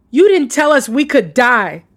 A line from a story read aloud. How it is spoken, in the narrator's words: shouted